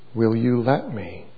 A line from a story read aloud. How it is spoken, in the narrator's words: asked gently